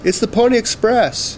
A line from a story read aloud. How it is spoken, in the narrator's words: Jake yelled